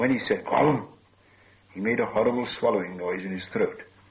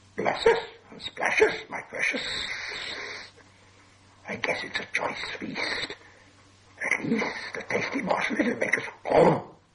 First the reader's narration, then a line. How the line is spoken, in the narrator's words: Gollum whispered and hissed